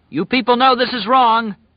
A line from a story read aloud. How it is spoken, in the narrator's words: Larry cried